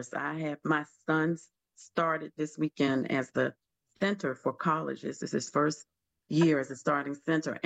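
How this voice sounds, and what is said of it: Hoarse, deep voice. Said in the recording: “my voice, I'm a little hoarse ... I have lost my voice. My voice is already deep, so I think it's even deeper today.”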